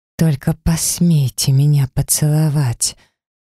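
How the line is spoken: Breathy snake-like hiss. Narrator (Russian): выдохнула я, прошипела змеей

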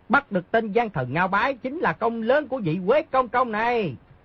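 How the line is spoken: Flattering raised voice. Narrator (Vietnamese): Một tên thị vệ muốn lấy lòng Di Tiểu Bảo, cao giọng nói

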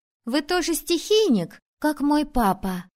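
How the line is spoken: Joyful. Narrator (Russian): сказала радостно

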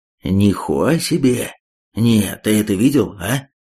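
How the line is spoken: Admiring hiss. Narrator (Russian): Восхищенно прошипел Цемент

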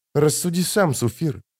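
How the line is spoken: Plain. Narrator (Russian): сказала она

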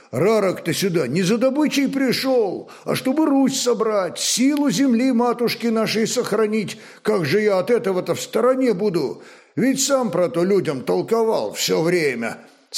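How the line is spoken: Childishly hurt exclamation. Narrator (Russian): С почти детской обидой воскликнул Сила

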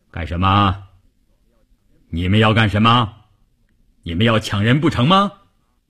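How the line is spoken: Booming fierce voice. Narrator (Chinese): 一个大块头，一开口声音炸得人头皮都发麻

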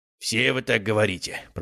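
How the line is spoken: Grumbling. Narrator (Russian): проворчал заведующий

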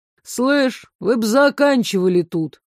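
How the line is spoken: Sudden droning from emptiness. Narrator (Russian): Прогудела вдруг пустота

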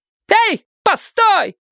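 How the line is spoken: Worked-up woman shouting. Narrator (Russian): крикнула разошедшаяся баба

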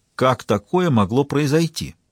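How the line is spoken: Exclaiming. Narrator (Russian): воскликнул он

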